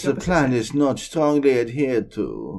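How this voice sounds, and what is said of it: Silly put-on accent. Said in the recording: “Why are we talking in this stupid accent?”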